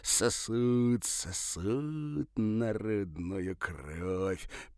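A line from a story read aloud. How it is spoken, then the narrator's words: Near hiss. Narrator (Russian): почти прошипел он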